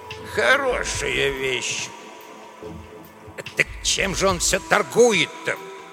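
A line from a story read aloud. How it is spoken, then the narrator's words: Grumbling. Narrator (Russian): ворчал Эдуардо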